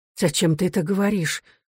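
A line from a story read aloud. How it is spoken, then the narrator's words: Quiet, mournful mother. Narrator (Russian): спросила мать тоскливо и негромко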